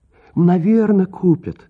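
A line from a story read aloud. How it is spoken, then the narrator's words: Gentle, affectionate. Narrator (Russian): ласково сказала Дели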